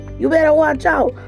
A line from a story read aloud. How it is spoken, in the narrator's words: Dunlap hollered